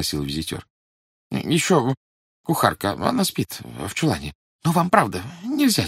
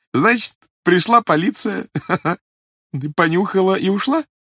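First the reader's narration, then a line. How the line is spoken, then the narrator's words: Laughing. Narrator (Russian): засмеялся блондин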